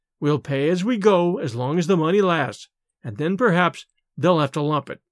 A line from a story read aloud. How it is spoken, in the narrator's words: Miss Lydia would calmly go on with her sewing and say